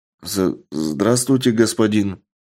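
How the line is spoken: Hesitant reply. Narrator (Russian): неуверенно ответил жеребец

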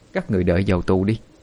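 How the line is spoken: Harsh gritted voice. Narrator (Vietnamese): gằn giọng mà nói

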